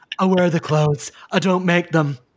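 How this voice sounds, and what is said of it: Impression of a husky-voiced woman. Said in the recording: “that your Stace impression? ... Her voice is something else ... husky voiced woman”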